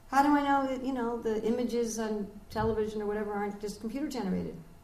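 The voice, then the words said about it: American accent. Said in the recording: “you can all tell by my accent I'm from America”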